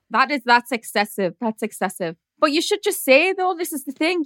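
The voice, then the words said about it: Strong Geordie accent. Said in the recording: “my Geordie accent is like intense”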